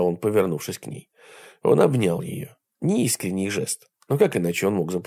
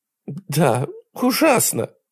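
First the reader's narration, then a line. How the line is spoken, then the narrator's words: Sobbing. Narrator (Russian): она всхлипывала у него на плече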